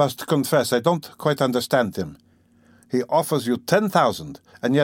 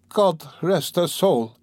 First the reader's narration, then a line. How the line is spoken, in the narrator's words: exclaimed Pulcheria Alexandrovna